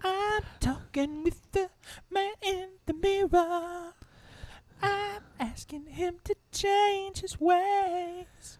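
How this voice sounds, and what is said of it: Singing in falsetto, in tune. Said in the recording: “Little falsetto there ... you were in tune and everything ... you sounded good”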